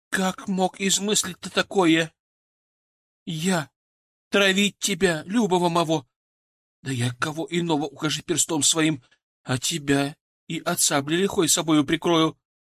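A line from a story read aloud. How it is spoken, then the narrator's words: Shouting, advancing. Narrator (Russian): Кричала, напирала, приближаясь ко мне Анна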